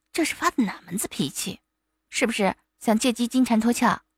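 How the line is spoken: Hushed coquettish reproach. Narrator (Chinese): 婉清压着声音娇嗔道

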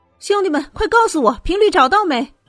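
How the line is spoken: Loud shout. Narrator (Chinese): 艾丽 嘴里大声喊道

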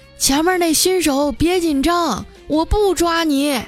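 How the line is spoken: Resigned shout through loudspeaker. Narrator (Chinese): 警车呀，无奈的拉响警笛跟了过来，用喇叭对着我喊

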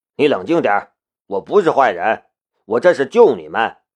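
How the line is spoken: Stern, sharp. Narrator (Chinese): 厉声说道

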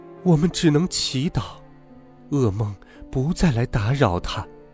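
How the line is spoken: Sighing queen. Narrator (Chinese): 王后唉声叹气地说

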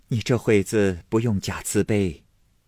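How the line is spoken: Laughing. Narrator (Chinese): 凤姐笑道

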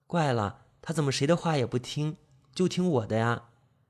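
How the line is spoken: Gentle, puzzled. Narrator (Chinese): 张杰温柔的一笑，疑惑不解的说道

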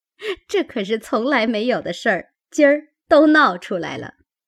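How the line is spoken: Group laughing. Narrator (Chinese): 众人都笑道

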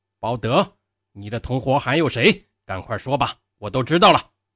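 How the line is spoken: Shouting. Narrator (Chinese): 船长开始喊

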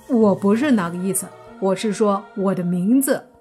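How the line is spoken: Awkward laugh. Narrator (Chinese): 泥巴尴尬一笑说

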